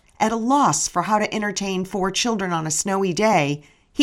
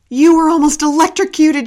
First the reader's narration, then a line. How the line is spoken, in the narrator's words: she shouted